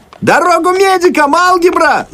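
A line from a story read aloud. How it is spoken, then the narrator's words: Yelling. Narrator (Russian): завопил фон Кранц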